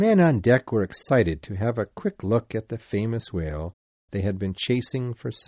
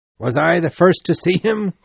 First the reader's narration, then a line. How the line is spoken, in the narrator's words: cried Ahab to all the men standing around on the ropes